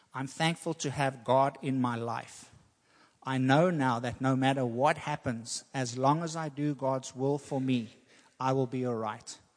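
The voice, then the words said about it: South African accent. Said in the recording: “your South African accent.”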